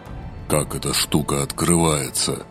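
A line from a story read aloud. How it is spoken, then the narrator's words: Gloomy question. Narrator (Russian): Мрачно поинтересовался Азриэль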